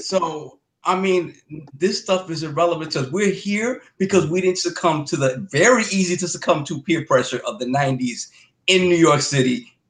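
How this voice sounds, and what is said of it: Bronx New York accent. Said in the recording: “I'm trying to catch that accent though. My mother's from the Bronx.”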